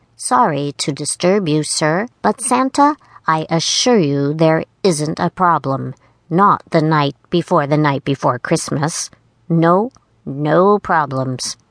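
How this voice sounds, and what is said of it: Very nervous, squeaky voice. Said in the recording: “In a very nervous, squeaky voice”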